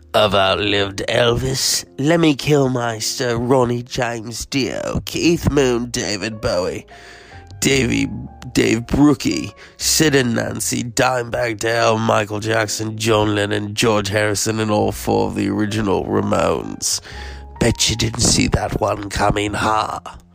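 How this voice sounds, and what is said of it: Put-on British accent impression. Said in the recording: “I have to do the British accent.”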